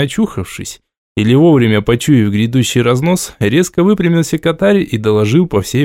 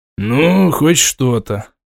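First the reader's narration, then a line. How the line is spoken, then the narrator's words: Old man grumbling. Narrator (Russian): проворчал патриарх клана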